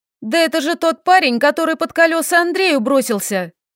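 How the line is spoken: Exclamation. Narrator (Russian): воскликнула Арина

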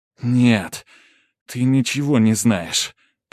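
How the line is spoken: Muttered through clenched teeth. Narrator (Russian): процедила сквозь зубы

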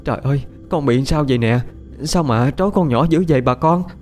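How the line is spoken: Anguished cry. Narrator (Vietnamese): Đau lòng, chị hai kêu lên

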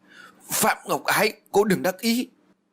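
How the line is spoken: Frenzied shout. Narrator (Vietnamese): Duyên điên cuồng mà hét lớn

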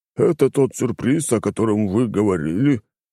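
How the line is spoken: Sigh. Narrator (Russian): вздохнул он

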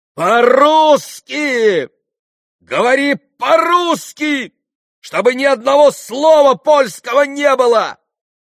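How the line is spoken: Shouting at someone. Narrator (Russian): закричала она на него

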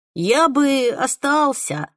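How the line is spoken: Plain. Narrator (Russian): ответил он

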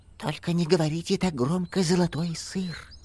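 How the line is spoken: Whispered. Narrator (Russian): прошептал

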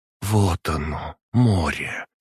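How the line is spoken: Quiet. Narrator (Russian): тихо произнесла Валентина

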